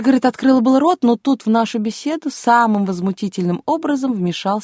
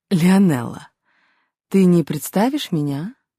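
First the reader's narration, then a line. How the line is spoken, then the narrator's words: Purring voice. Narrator (Russian): Голос столичной знаменитости приобрел мурлыкающие интонации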